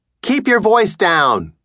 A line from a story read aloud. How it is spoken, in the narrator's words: yell from the living room